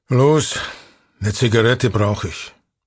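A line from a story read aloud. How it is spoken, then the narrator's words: Driver grumbling. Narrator (German): brummt der Fahrer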